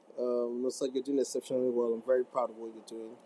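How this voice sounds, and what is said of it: Nigerian accent. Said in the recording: “my Niger accent as I'm a Niger boy”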